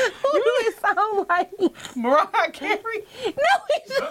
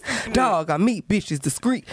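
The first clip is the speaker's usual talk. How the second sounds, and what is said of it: Imitates a rapper's voice. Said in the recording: “gotta put on my nigga voice... my DMX impression is great... That do not sound like DMX.”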